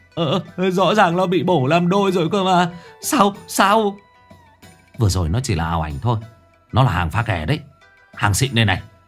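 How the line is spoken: Tearful whimpering. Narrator (Vietnamese): Thằng Hải béo mếu máo

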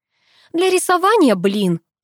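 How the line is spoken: Snapping back. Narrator (Russian): огрызнулась

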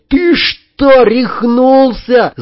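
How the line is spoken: Yell. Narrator (Russian): заорал

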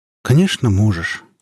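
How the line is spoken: Sad, deeply ashamed. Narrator (Russian): грустно сказал Сергей Петрович, которому стало невыносимо стыдно

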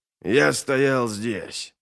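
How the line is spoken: Muttering. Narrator (Russian): пробормотал Глокта

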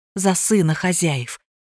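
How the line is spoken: Whispered, mother. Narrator (Russian): прошептала мама

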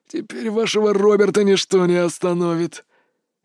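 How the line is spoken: Devilish laughter. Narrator (Russian): он засмеялся, как дьявол из преисподней

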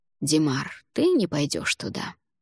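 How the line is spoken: Quiet. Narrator (Russian): негромко произнес он

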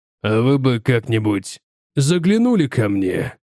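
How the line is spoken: Hoarse voice. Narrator (Russian): хриплым голосом произнес Бревальд

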